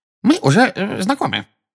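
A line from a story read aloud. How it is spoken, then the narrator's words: Excitable squeak. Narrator (Russian): пропищал чуть что приходящий в волнение Дингл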